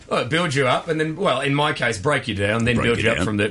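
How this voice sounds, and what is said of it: Gravelly voice, faded Australian accent. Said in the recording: “I sound like a man who's eaten some gravel, some sexy Australian gravel”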